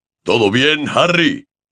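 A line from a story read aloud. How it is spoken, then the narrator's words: Shouted. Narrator (Spanish): le gritó Hagrid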